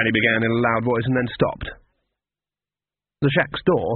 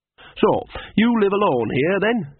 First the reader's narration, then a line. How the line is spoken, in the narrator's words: she said brightly